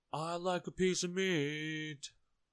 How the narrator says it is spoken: boomed

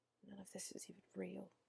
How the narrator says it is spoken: Katla said under her breath

